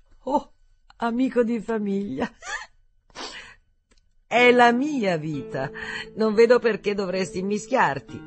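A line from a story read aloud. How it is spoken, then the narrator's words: Sobbing. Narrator (Italian): Un altro singhiozzo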